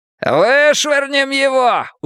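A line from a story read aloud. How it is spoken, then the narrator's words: Shouting and laughing. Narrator (Russian): уже кричал Гартон, кричал и смеялся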